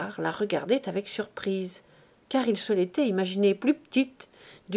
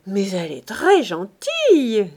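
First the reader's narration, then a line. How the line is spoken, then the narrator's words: Delighted exclamation. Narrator (French): s'écria Chanteau, ravi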